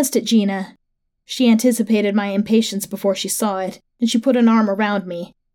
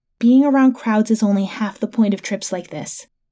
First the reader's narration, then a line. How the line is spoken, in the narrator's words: Gina explained in a whisper